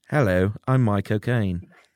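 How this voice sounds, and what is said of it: Michael Caine accent impression. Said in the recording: “Michael Caine ... That's his accent.”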